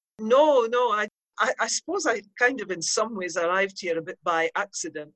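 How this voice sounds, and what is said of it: Scottish accent. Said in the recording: “I can hear your Scots accent.”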